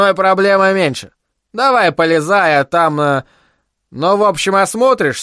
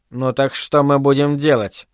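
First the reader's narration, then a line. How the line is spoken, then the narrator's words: Irritated question. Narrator (Russian): раздраженно осведомилась Дерхан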